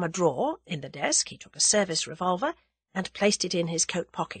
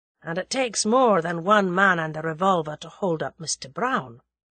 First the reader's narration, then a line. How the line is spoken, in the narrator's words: said Sir James dryly